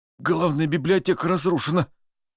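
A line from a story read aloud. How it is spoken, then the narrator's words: Slightly trembling man's voice. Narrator (Russian): немного дрожащим голосом сказал мужчина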